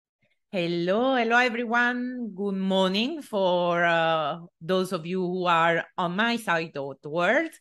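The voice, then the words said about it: Excited, upbeat voice. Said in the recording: “you can already hear from my voice, I'm super excited”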